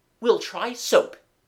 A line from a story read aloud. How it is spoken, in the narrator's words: he said firmly